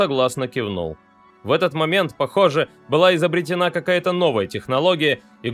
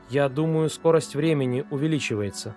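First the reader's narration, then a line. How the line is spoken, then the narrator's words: Quiet voice. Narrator (Russian): сказала Гейл тихим голосом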